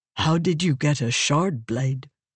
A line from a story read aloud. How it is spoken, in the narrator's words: Relaine asked softly, to curiosity